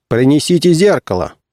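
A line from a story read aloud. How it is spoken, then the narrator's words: Commanding tone. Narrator (Russian): сказал он начальственным тоном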